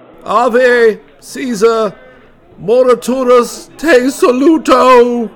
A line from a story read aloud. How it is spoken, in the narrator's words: He shouted